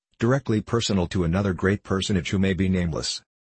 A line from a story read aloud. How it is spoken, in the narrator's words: I added, a little dryly